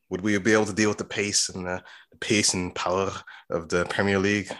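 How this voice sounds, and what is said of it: Put-on English accent. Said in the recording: “use your English accent”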